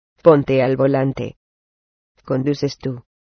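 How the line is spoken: Calm voice. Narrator (Spanish): dijo con voz tranquila

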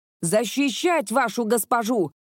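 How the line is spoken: Shouting. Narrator (Russian): крикнул Райден стражником

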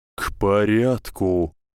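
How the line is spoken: Growl. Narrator (Russian): прорычал Дамблдор

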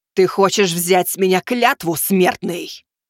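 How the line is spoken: Barking shout. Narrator (Russian): рявкнула Аврора

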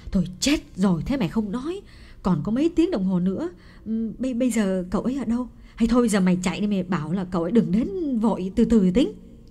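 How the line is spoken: Crying out. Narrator (Vietnamese): Bà mẹ Phượng kêu lên

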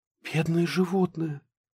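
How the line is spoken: Whisper. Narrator (Russian): прошептала Аллочка

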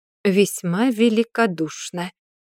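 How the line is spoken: Through gritted teeth. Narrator (Russian): процедила Кайлин

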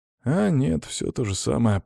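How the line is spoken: Muttering. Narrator (Russian): пробормотал я

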